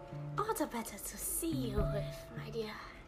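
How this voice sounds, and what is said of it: Funny character voice. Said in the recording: “said the funny voice”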